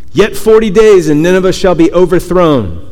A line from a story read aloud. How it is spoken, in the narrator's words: he called out